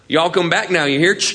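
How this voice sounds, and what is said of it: Put-on Southern American accent. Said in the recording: “We know when someone's from the South”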